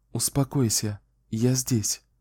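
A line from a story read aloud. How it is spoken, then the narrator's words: Gentle, tender. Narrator (Russian): Кэлен сказала ласково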